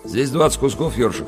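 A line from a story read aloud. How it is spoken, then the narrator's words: Plain. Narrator (Russian): сказал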